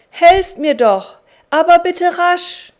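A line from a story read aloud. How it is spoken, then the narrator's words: Calling out. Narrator (German): rief er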